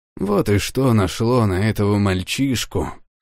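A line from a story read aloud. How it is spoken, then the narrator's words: Grumbling under breath. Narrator (Russian): пробурчал он себе под нос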